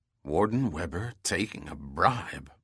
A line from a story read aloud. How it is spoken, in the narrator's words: Bronson muttered